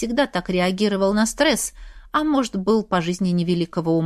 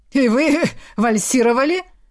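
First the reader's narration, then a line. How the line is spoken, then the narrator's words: Chuckling man. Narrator (Russian): Снова хохотнул физрук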